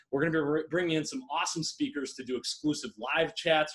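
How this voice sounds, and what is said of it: Excited, energetic voice. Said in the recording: “I'm so pumped, as you can tell by my voice. I'm fired up.”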